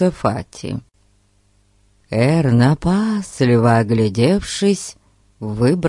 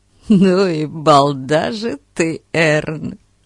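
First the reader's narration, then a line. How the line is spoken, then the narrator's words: Groaning. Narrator (Russian): простонал Фати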